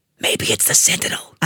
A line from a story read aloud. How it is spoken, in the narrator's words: I hissed